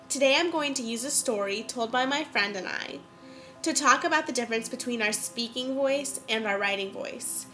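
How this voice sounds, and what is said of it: Congested, stuffy-nosed voice. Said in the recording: “really congested ... my sinuses can't handle it ... my cold ... I'm still a little congested”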